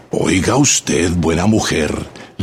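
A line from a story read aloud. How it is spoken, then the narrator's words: Low, grim, threatening voice. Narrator (Spanish): le dijo en voz baja, sombría y amenazadora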